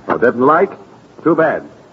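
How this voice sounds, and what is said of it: Clipped, terse telegram-style speech. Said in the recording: “stop sounding like a Scotch telegram”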